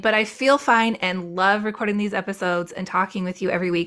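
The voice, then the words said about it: Slightly hoarse voice. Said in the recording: “if you can hear it in my voice, I have a little bit of a cold right now. It's just a little hoarse.”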